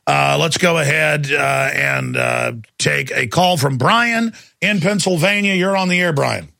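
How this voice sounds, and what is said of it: Usual voice. Nothing is said of it.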